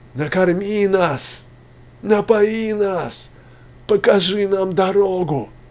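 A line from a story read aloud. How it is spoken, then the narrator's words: Hoarse, weak, pleading cries. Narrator (Russian): Хриплы были голоса вопиющих, и бессильна была в них угроза и жалкая, изнемогающая мольба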